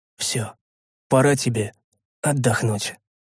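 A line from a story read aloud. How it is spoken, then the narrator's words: Said quietly. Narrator (Russian): я тихо произнес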